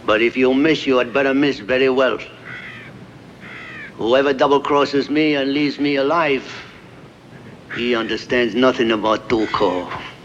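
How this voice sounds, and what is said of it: Standardized, clear Mexican accent. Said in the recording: “I don't think it's a very good Mexican accent... it's standardized... I didn't do the cliche... I wanted specifically to be clear in what I was saying”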